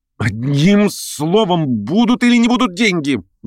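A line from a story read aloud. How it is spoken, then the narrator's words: Angry impatient commanding shout. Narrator (Russian): В злобном нетерпении как бы властно крикнул он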